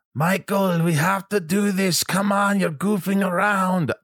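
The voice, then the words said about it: Imitates an old Frenchman's accented voice. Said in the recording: “he's this old little lovable French guy ... I don't even know what accent I'm doing”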